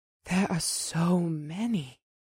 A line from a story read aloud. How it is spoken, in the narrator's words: she murmured